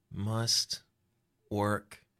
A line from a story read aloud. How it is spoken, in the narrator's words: she murmurs